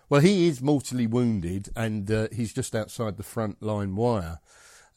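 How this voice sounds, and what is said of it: Scottish accent. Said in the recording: “I'm Scottish, Pete. As you can tell by the accent.”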